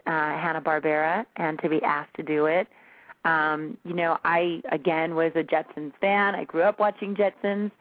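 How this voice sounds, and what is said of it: Rugged, slightly raspy voice. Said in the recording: “I have, like, more of a rugged, kind of almost a rasp to my voice”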